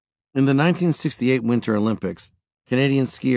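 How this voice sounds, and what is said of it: Usual voice. Nothing is said of it.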